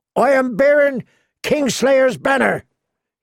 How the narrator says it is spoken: he shouted

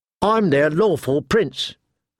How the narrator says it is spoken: Theon said stiffly

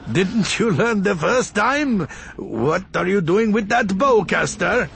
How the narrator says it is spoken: said, trying to laugh and be friendly

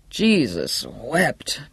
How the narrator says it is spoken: muttered

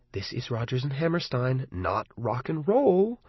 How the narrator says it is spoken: I muttered to Arnie and Lee

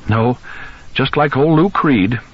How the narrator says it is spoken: she said and giggled

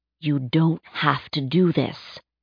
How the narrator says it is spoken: Furter whispered to Samantha

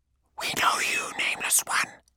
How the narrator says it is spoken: hissed the voices in his skull

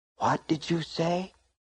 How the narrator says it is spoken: She whispered

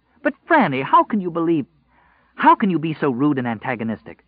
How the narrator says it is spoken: she asked hotly

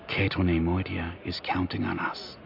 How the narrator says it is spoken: she said in a quiet but steady voice

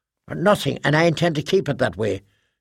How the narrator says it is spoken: Jessie snapped

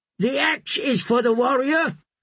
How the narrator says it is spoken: Rush shouted back

